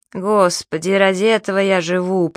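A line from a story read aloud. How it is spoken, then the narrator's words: Moan. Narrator (Russian): простонал мистер Кеннон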